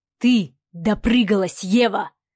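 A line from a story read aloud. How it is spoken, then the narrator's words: Hissing. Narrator (Russian): прошипел Савелий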